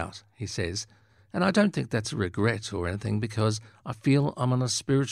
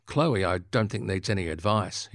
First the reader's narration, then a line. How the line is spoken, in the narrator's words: he says, laughing